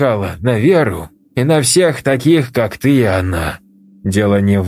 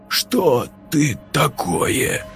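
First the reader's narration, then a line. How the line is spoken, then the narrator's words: Woman's frantic rasp. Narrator (Russian): прохрипела женщина, практически теряя рассудок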